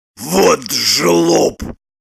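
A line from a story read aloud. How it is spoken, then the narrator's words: Through gritted teeth. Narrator (Russian): процедил Леха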